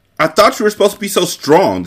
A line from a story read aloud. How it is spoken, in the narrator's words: the Sicilian shouted